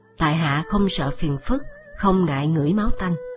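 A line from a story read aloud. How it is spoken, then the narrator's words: Cold thin smile. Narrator (Vietnamese): Diệp Khai cười nhạt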